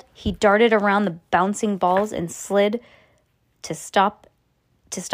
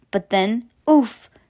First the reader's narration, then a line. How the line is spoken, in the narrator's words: Sam wheezed as a dodgeball slammed into his stomach